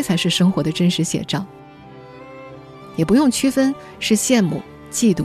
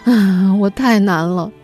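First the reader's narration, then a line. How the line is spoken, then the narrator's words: Sighing. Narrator (Chinese): 伴随着叹气声说一声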